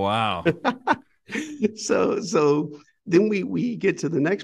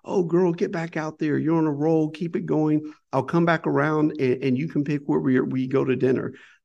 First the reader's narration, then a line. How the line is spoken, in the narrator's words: my dad, in the most loving, sweet voice